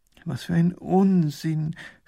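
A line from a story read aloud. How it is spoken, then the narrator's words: Groaning. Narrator (German): stöhnt Professor Pfiffikus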